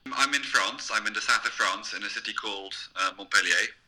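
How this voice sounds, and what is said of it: French accent with English influence. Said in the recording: “If you find my accent not very convincing, it's because I'm half English, so that explains the accent.”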